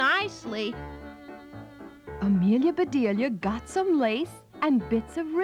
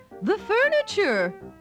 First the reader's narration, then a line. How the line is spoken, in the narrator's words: She cried